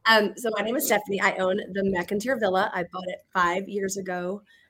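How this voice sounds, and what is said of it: Strained, fading voice. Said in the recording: “I'm kind of losing my voice. Everyone's dream, me losing my voice.”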